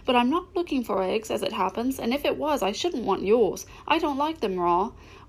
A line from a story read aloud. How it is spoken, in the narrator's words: said Alice hastily